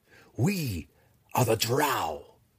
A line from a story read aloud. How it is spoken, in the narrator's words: Hatchnik cried